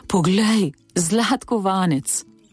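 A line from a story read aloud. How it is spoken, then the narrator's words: Sighing. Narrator (Slovenian): vzdihnil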